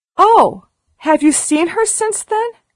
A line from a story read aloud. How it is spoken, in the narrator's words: exclaimed Sara